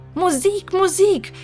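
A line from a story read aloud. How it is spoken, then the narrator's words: Emperor shouting. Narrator (German): schrie der Kaiser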